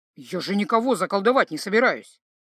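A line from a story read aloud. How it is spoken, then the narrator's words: Offended. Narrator (Russian): обиженно заметил Скарпа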